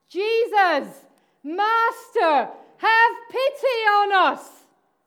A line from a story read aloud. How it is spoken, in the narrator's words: they called out